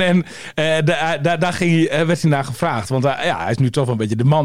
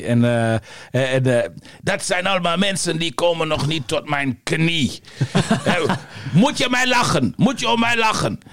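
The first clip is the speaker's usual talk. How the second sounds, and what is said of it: Poor imitation of Yugoslav accent. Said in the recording (Dutch): “een matige, ... racistische imitatie.”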